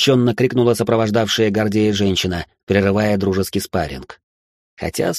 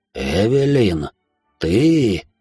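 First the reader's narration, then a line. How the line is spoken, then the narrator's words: Shocked whisper. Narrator (Russian): прошептал он с резко побелевшим лицом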